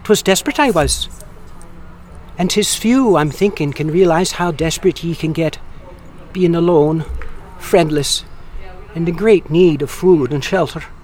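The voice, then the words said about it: Deliberately poor Irish accent. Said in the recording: “my Irish accent is terrible. It sucks.”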